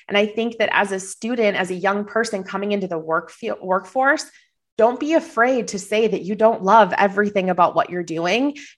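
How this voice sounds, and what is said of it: Slight Minnesota accent. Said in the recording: “I hear it in your little Minnesota accent ... I thought I had it masked. I have a little bit of a cold too”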